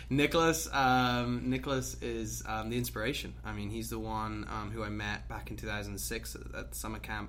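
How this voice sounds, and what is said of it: British accent. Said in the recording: “Why do you have a British accent?”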